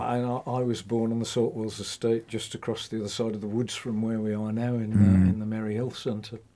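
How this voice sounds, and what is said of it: Modified Black Country accent. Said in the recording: “my accent, although it's still there, I think anybody would know I'm from the Black Country, has modified over the years”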